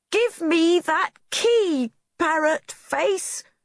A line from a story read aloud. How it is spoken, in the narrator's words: she shouted